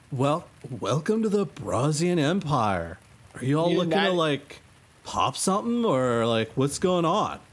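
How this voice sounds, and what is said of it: Laid-back surfer bro accent. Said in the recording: “The accent won't be Russian, it'll be like, sup, brah?”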